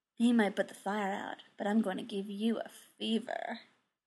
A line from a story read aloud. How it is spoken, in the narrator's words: A red-haired woman murmured